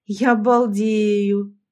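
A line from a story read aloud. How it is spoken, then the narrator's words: Mocking drawl. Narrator (Russian): протянула я, насмешливо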